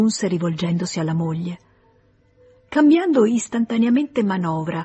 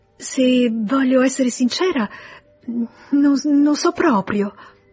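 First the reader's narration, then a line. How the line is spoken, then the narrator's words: Stammered with mysterious smile. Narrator (Italian): balbettò lei con un misterioso sorriso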